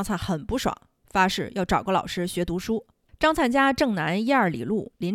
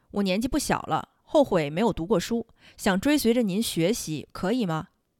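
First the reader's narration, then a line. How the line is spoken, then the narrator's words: Plain. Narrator (Chinese): 儒士说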